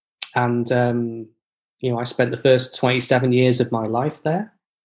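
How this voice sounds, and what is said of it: Northern English accent. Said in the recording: “probably you can tell from the accent that I didn't grow up in Canada. I grew up in England, in Cheshire, which is just south of Manchester, the northwest of England.”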